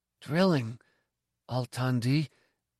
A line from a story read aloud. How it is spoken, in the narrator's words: I whispered